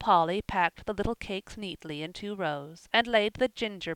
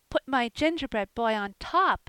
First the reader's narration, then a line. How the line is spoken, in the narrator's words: cried Phronsie